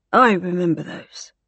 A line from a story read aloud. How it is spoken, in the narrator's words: said Arthur hoarsely